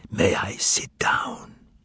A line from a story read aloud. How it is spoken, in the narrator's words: asked in a whisper